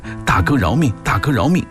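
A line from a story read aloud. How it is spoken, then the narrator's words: Frightened repeated cries. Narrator (Chinese): 吓得对方…嘴里不停地喊着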